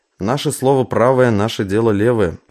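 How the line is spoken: Wry snort. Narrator (Russian): хмыкнул Шмель

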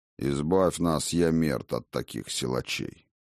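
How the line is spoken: Grumbling. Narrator (Russian): проворчал Один

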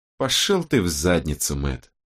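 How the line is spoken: Calm. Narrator (Russian): спокойно сказала Робин

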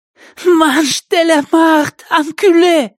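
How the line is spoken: Girl's hoarse rasp. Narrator (Russian): прохрипела девушка

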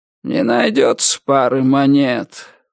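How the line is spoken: Weary drawl from behind. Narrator (Russian): устало протянул кто-то за спиной Ричарда

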